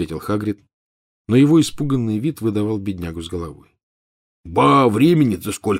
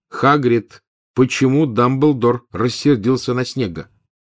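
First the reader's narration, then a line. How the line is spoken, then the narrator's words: Loud question. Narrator (Russian): громко спросил Гарри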